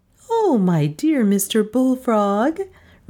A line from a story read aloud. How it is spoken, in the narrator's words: replied my wife sweetly